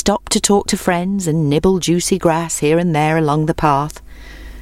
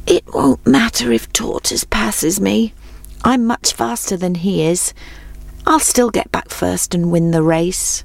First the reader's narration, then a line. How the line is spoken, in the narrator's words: he murmured sleepily